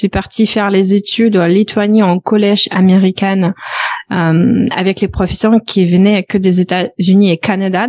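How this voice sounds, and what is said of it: Slight Belarusian accent in French. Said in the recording (French): “un petit accent donc ça, c'est vient de mhm. Biélorussie.”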